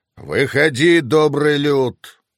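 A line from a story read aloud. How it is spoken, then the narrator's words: Dragon's trained roar. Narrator (Russian): проревел дракон хорошо поставленным голосом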